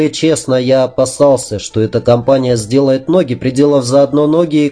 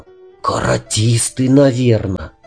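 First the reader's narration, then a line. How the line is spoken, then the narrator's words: Respectful whisper, youngest boy. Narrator (Russian): самый младший из них прошептал с уважением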